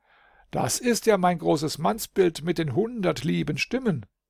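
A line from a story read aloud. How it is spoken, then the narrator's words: Young man calling out. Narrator (German): Und der junge Holdrio rief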